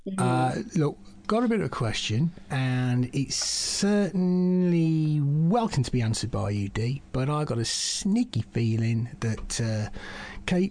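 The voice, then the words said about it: Southern English accent, maybe Essex. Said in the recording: “Can you pinpoint that accent? ... Down south a bit, down south ... like maybe a bit Essexy. I'm not sure. Right. It's just down south.”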